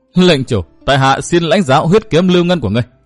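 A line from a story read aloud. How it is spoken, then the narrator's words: Bursting into laughter. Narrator (Vietnamese): Hắn không nín được đã bật cười nói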